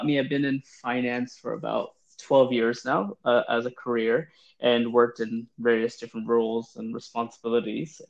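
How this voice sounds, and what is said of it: New York accent. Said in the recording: “I am from New York, hence the accent.”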